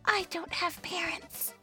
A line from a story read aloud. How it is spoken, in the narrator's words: Flora whispers